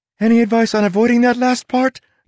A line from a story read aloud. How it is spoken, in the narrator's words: Tress asked, her voice growing more shrill